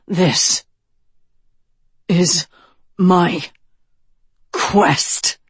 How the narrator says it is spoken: he snarled

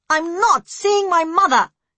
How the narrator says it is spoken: she yelled angrily as soon as she was fully awake

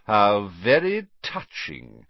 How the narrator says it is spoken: sneered Snape

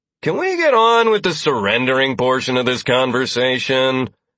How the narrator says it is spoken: I called out in the best bored tone I could muster, despite inwardly seething

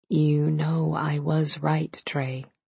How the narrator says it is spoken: she said in a low voice

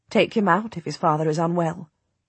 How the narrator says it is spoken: she says quietly

